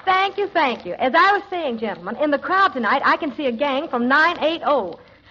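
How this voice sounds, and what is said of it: Brooklyn talk with Texas accent. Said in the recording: “This girl talks Brooklyn with a Texas accent.”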